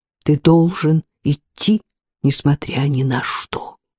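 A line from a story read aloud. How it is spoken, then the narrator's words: Whisper. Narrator (Russian): прошептал голос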